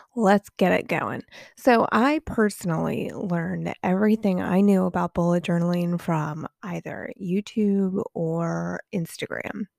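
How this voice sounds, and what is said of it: Congested, sinusy voice. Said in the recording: “excuse my voice. ... dealing with a little sinus thing”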